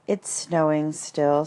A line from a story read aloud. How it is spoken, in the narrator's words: said Eeyore gloomily